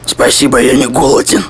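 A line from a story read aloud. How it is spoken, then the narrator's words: Unexpectedly hoarse. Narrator (Russian): ответил он неожиданно хриплым голосом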